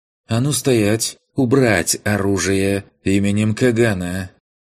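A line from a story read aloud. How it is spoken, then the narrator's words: Sharp husky female command. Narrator (Russian): Приятный женский голос с легкой хрипотцой выстрелом разорвал напряжение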